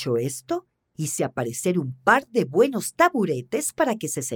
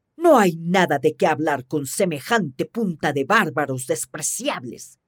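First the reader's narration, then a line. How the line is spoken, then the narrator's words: Grumbling. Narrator (Spanish): rezongó Marlik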